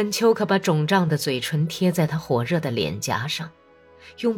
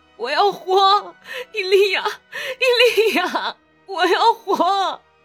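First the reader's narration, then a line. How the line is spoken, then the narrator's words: Desperate crying out. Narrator (Chinese): 他喊叫 他哭喊着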